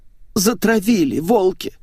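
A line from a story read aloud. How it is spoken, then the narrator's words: Sobbing. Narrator (Russian): всхлипнула Светик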